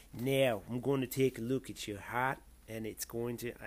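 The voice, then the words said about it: Attempted Australian accent. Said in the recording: “an Australian accent ... I, I can't I can't do accents.”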